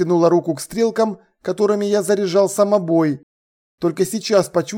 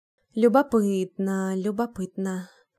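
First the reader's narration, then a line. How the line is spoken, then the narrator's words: Muttering under breath. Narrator (Russian): бормотала под нос Изабо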